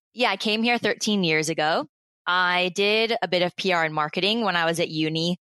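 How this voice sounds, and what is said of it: American accent. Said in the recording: “I am originally from the United States. I don't know whether or not you can hear in my accent.”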